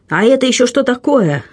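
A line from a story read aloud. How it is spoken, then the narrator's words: Feigned astonished exclamation. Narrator (Russian): воскликнул флебустьер с блестяще разыгранным изумлением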